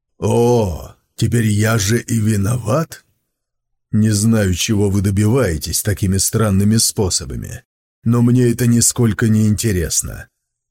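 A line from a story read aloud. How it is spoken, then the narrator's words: Blunt and rude. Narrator (Russian): прямо и грубо сказал Сун Цзиюй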